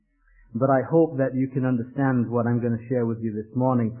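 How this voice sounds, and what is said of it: Northern English accent with Irish traces. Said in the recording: “this is not a typical Washington, Georgia accent... I'm actually from Leeds in the north of England... worked in Ireland as a missionary for 8 years... my accent is a mongrel accent, a little bit of this and a little bit of that”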